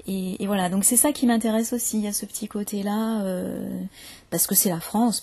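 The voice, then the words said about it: Standard Parisian French accent. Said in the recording (French): “accent plutôt comme le mien, parce que moi je suis née à Paris ... mon accent a un petit peu changé, mais globalement c'est quand même un accent très standard”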